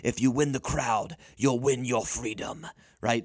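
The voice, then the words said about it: Dramatic movie-line voice. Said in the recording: “very dramatic voice”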